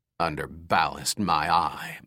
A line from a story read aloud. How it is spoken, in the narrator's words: Max grumbled